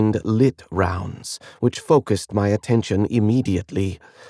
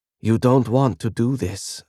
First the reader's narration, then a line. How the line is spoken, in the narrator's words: I said, keeping my voice even